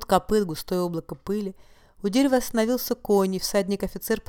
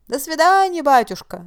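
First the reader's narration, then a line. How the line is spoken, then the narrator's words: Cossacks shouting together. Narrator (Russian): закричали казаки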